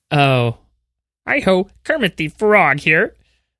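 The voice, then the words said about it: Kermit the Frog voice, too high. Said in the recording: “mine is like a little too high. Like, it doesn't have the right quality”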